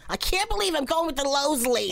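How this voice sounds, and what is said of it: Imitates another person's voice. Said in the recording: “get my accent down a little better ... I can do a good Lisa”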